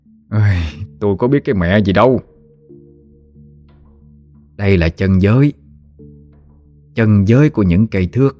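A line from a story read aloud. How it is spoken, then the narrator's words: Sighing lament. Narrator (Vietnamese): Tâm thở dài, nói như tự than vãn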